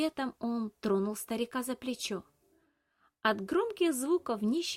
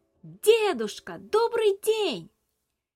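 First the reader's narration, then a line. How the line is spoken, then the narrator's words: Shouted as loud as possible. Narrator (Russian): Набрав воздуха в легкие, Илья крикнул так громко, как только мог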